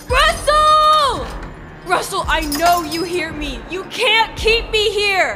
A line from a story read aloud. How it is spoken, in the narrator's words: screamed out